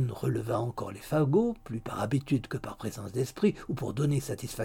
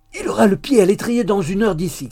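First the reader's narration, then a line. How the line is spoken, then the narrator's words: Shouted. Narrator (French): cria-t-il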